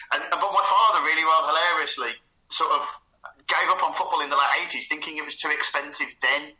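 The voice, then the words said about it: Birmingham accent. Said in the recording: “maybe keen listeners will know that my accent, Birmingham City ... I knew it was Birmingham.”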